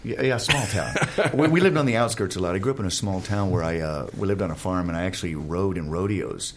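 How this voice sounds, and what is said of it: Texas accent. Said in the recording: “Texas. ... Why'd you hear it in my accent? ... Yes, I did.”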